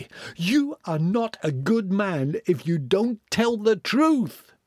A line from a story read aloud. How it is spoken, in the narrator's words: they shout, but again and again